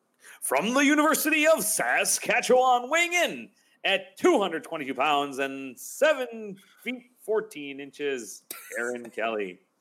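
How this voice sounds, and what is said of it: NBA-style sports announcer voice. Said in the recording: “That's a fantastic, like, announcer voice there.”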